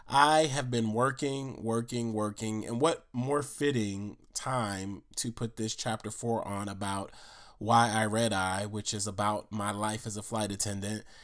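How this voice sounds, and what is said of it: Nasal, congested voice. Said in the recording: “If you can hear it in my voice, it's kind of nasal and everything like that.”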